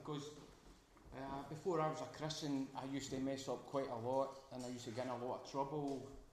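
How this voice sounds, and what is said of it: Glaswegian Scottish accent. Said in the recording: “Hope you understand my dialect once more. I'm a Glaswegian, and a lot of Glaswegian terms will come out.”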